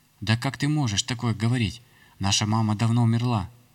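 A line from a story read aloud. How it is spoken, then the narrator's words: Sharply raised voice. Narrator (Russian): резко повысив тон, начала говорить Ярославна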